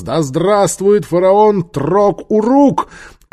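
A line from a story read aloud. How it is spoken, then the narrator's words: Shouted in unison. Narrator (Russian): закричали в один голос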